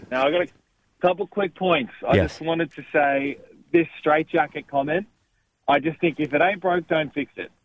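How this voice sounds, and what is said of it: Australian accent. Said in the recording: “Australia ... love that accent ... a Melbourne'sman”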